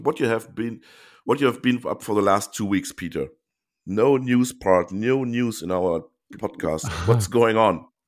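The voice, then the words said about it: Congested, sick-sounding voice. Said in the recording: “You can hear that I have a bad cold. ... bad, very bad cold”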